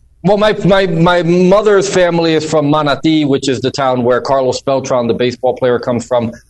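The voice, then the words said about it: New Jersey Northeastern accent. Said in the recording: “this accent that you hear is a New Jersey, a Northeastern, similar to a New York accent”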